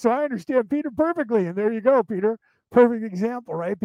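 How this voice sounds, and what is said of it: Fast Irish accent. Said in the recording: “my Irish accent ... I speak too fast”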